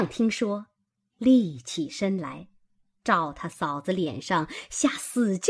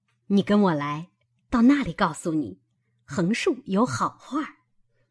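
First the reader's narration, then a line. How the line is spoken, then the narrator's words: Laughing. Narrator (Chinese): 他嫂子笑道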